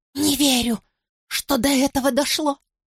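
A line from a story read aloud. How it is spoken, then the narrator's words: Hoarse, bitter. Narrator (Russian): произносит Бет хрипло и с такой горечью, что я едва ее узнаю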